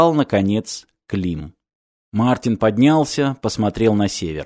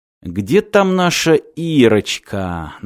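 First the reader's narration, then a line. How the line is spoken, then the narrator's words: Mocking. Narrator (Russian): насмешливо сказал Клим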